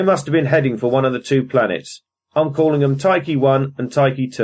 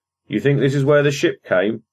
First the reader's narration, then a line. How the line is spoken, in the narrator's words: asked Sibley